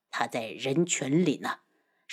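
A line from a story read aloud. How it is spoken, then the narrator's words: Low voice. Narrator (Chinese): 漫天妖低声道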